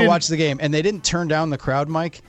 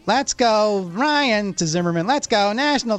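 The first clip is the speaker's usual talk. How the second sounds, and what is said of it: Nasal, adenoidal chanting voice. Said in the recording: “chanting in that adenoidy voice ... it was like fingernails on a blackboard”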